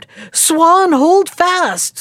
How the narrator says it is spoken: The bird screamed

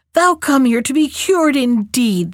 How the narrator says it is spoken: cried

